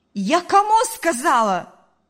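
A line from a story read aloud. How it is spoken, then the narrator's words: Mother shouting. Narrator (Russian): закричала мать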